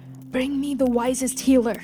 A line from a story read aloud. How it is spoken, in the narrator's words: with shame, hoarsely he did say